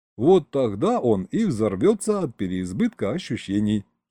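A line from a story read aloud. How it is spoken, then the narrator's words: Giggling. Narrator (Russian): хихикнул я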